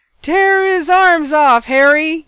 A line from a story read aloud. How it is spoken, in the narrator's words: yelled Colin